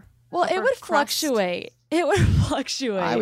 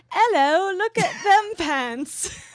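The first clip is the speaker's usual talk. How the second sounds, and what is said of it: Bad put-on British accent. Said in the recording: “my British accent is really bad ... I would say more French”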